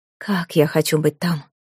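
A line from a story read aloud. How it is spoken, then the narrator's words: Involuntary mutter. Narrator (Russian): невольно пробормотала она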